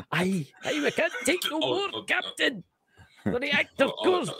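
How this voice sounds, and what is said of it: Imitates Scotty from Star Trek. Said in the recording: “I love your accent ... reminds me of Scotty on Star Trek”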